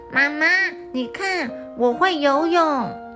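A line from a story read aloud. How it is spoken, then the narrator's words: Loud shout. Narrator (Chinese): 一颗圆圆的脑袋大声喊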